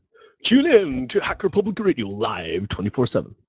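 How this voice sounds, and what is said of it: Radio DJ voice. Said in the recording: “Put on my DJ voice.”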